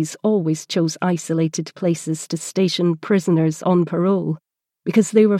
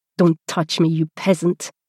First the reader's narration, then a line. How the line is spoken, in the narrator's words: spat out in French